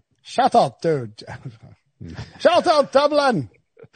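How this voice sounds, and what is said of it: Put-on Irish accent, pretty good. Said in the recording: “you have to do it in your Irish accent ... That wasn't terrible ... That was pretty good Irish accent”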